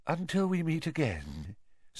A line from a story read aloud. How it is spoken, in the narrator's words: said Professor Trelawney faintly